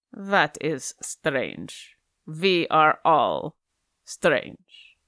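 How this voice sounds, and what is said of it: Character voice with an accent. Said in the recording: “I'm going to need more of that accent.”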